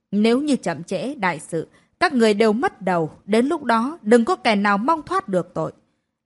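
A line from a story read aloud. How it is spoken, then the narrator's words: Yelling even louder. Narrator (Vietnamese): Cô ta càng gào lên to hơn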